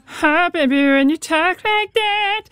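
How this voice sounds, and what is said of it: Trumpet-like imitation of a singer. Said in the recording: “do a weirdly good Shakira impression ... sounding a little bit like a person and a trumpet at the same time”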